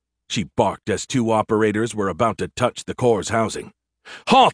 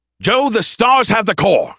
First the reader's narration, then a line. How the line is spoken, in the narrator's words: Skippy shouted